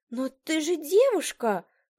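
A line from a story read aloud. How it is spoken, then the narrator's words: Exclaimed. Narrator (Russian): воскликнула она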